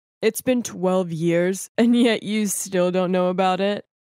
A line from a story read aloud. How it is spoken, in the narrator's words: One of the men just laughed and said